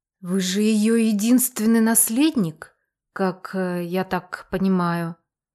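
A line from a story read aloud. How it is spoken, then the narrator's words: Quiet. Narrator (Russian): тихо сказал Альберт Венедиктович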